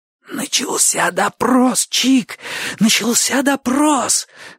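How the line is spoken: Hoarse wheezing. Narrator (Russian): засипел Бочо

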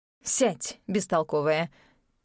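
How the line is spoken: Grumbling. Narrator (Russian): проворчала селедка

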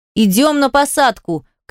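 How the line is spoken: Shout from below. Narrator (Russian): крикнул снизу первый помощник Вер-командира

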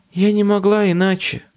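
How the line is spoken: Moaning. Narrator (Russian): простонала

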